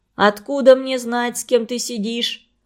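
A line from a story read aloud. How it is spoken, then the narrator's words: Irritated old woman grumbling. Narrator (Russian): продолжала ворчать раздраженная бабушка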